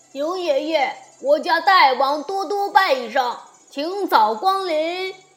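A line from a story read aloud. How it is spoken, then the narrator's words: Shouting from afar. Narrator (Chinese): 山峰上有人高喊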